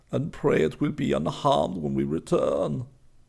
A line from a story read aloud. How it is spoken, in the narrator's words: Weiss said sadly